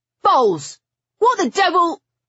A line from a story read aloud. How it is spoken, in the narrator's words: He choked off the last word when he caught sight of Stoker